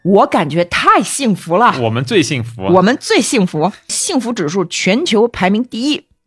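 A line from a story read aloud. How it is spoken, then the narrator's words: Loud repetitive chanting. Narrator (Chinese): 复仇国的国民必须一遍一遍的大声重复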